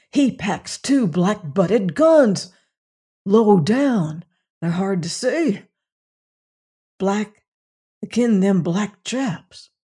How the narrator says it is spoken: hoarsely whispered one of Tull's companions

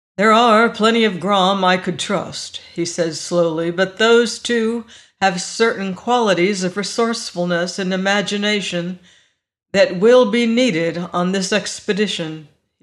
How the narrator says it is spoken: he sighed

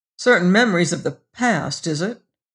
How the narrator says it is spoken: He sneered

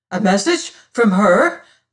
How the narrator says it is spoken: cried

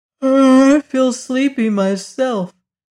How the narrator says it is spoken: remarked Zeb, yawning

